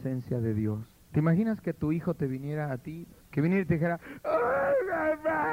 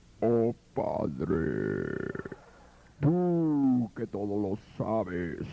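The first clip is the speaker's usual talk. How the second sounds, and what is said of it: Deep solemn voice from beyond grave. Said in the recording (Spanish): “esos que hacen la voz así ... voz de ultratumba”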